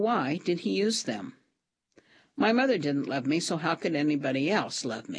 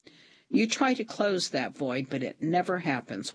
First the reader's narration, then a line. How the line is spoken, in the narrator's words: Walter said